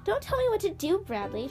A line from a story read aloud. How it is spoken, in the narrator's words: Sean snapped